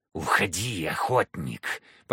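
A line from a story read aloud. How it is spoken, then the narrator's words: Hissing. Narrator (Russian): послышалось шипение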